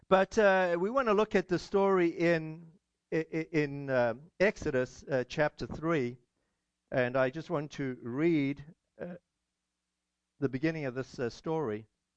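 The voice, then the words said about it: Scratchy, congested voice. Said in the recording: “apologize for my voice ... congestion or something, so my voice is a little scratchy”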